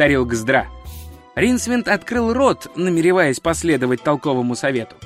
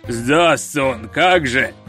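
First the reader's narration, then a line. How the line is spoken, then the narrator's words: Booming, rolling voice. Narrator (Russian): прогремел за спиной раскатистый голос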